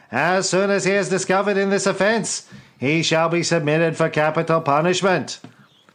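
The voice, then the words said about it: Bad Kennedy impression. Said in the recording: “bad Kennedy impersonation”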